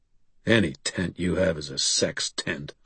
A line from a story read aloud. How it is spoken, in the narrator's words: I muttered darkly